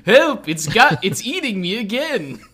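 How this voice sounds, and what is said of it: Abridged-series cartoon voice. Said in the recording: “it's funnier to do the abridged voice”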